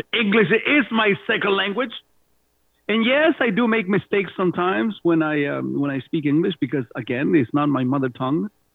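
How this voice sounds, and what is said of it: Spanish accent. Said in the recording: “my sultry Spanish accent”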